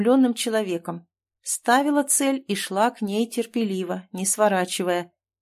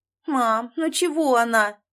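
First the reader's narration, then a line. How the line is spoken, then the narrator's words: Whining. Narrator (Russian): хныкала Надя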